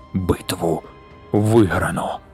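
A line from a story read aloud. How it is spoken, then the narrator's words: Whispered. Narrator (Ukrainian): прошепотів верховний головнокомандувач Фетерер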